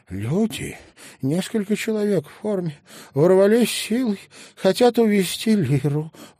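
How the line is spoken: Breathless. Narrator (Russian): выдохнула она

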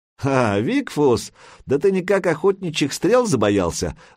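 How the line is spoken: Mocking guffaw. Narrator (Russian): захохотал Крикун

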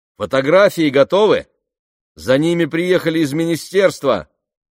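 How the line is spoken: Distant shout, large woman. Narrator (Russian): крикнула с другого конца зала крупная женщина с сержантскими нашивками на рукаве

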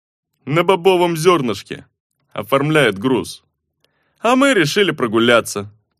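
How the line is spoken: Low droning boom. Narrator (Russian): прогудел Руи

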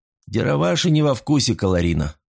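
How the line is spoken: Gloomy. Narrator (Russian): мрачно произнес человек

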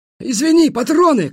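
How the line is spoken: Shout. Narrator (Russian): крикнул хмель

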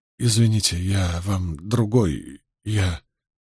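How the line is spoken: Mumbling. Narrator (Russian): Перин промямлил

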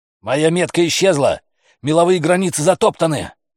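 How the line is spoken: Shouting into ear. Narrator (Russian): прокричал Стэнтон Макласки в ухо

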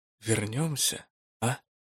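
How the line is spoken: Quiet, soft. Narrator (Russian): другой тихонько скажет

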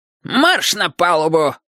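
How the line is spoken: Sharp bark. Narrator (Russian): рявкнул Урюк

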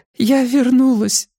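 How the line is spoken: Sobbing. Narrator (Russian): всхлипнула Эми

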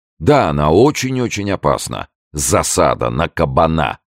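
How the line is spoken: Loud repetition. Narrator (Russian): громко повторил Д'Артаньян

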